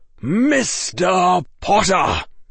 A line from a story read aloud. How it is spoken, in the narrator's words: barked Professor Quirrell